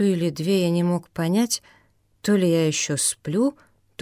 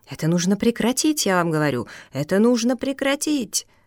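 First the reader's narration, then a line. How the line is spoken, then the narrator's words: Energetic shout. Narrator (Russian): миссис Дан Келтроп энергично закричала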